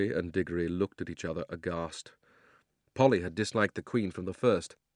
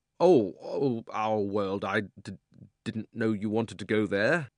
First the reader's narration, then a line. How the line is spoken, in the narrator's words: Diggory got very red in the face and stammered